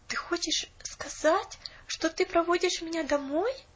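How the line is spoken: Pleading. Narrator (Russian): взмолилась Поллианна

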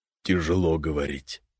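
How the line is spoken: Mumbling guest. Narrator (Russian): пробормотал гость

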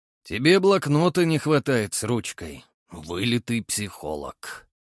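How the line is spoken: Wry snort. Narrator (Russian): хмыкнул Огнев

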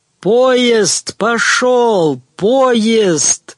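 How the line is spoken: Frantic scream. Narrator (Russian): истошно завопил Терпсихорян

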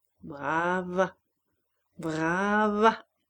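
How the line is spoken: Singing voice, dominating others. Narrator (French): d'une voix chantante qui dominait les autres

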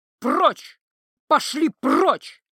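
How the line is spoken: Howling. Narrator (Russian): взвыла Ива

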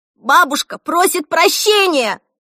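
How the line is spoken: Yelling. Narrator (Russian): завопила она

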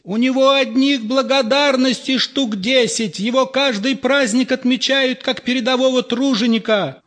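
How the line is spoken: Shout from audience. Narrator (Russian): выкрикнули из зала

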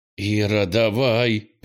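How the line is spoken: Through gritted teeth. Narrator (Russian): процедил Кенни

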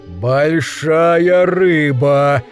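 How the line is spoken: Low, greedy exclamation. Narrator (Russian): низким жадным голосом воскликнул мужчина в черном костюме

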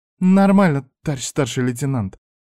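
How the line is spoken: Almost normal young woman's voice. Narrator (Russian): почти нормальным голосом отозвалась из своего уголка девушка

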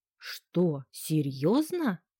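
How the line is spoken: Exclamation. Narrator (Russian): воскликнула она

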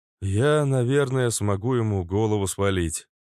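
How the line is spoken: Glum. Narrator (Russian): уныло поведал Флэш

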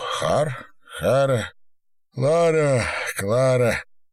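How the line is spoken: Smirking, forceful exhale. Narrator (Russian): Усмехнулся, силой выдохнул сквозь неровные зубы

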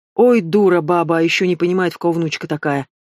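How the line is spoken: Grumbling forester. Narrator (Russian): заворчал лесник

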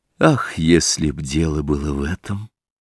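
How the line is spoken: Glum. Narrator (Russian): уныло произнес Дориан

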